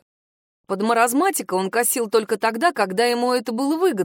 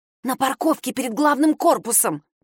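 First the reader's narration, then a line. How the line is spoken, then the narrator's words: Hissed. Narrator (Russian): прошипела Надежда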